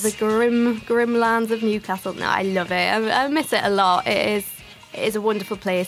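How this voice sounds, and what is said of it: Newcastle Geordie accent. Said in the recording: “people might have noticed from your accent that you're maybe not from around here... I'm from the north. I'm from Newcastle.”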